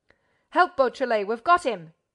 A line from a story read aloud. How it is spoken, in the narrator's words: Ganimard bellowed